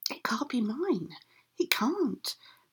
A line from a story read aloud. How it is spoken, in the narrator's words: whispered the old woman